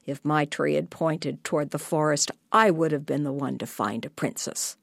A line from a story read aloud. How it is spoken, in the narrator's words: The older brothers quietly grumbled and said to each other